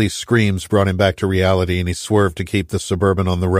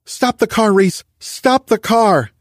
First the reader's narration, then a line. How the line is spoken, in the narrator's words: she shouted